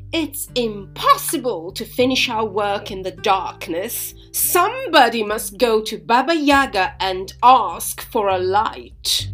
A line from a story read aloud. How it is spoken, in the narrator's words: she said in a loud voice